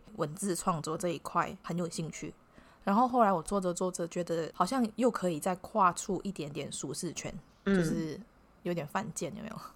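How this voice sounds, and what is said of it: Slight accent, occasional unusual tones. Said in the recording (Chinese): “我的口音有时候大家听得有点辛苦哈 ... 我觉得你口音没有到很严重 ... 偶尔可能会有一些字会有一些腔调”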